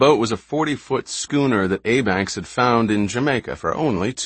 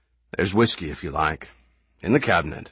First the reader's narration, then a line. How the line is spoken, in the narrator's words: Abanks said